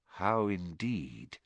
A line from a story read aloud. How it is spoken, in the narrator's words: muttered Dumbledore